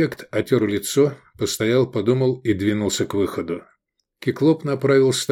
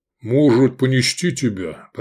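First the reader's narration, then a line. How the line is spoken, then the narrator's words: Booming voice. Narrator (Russian): прогудел Кеклоп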